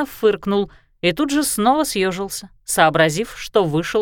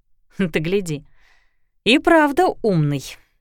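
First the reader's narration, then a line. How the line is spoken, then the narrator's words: Sighing. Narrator (Russian): вздохнула она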